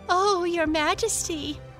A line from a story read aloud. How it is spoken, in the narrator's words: laughed Lotta